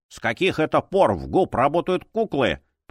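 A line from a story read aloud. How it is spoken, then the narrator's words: Grumbling. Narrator (Russian): проворчал Хью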